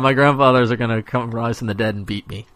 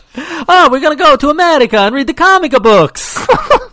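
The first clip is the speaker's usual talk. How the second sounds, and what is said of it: Exaggerated bad Italian accent. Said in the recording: “Your horrendous Italian accent.”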